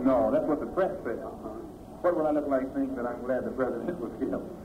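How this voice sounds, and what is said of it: Talking very fast and hard. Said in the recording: “That's why I'm talking so fast and so hard.”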